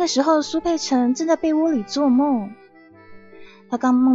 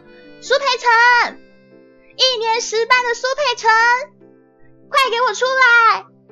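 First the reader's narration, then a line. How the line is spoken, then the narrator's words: Screeching yell. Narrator (Chinese): 扯开嗓子，像杀猪一样的喊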